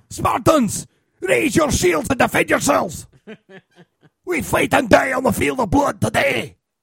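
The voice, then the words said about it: Scottish-accented impression of the 300 lead. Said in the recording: “the lead guy's got a Scottish accent”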